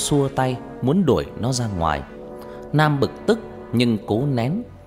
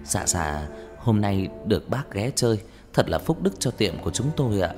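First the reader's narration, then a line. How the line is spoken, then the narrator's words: Soft, obsequious. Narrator (Vietnamese): Ông chủ như cúp đuôi, như chó con, nói giọng nhỏ nhẹ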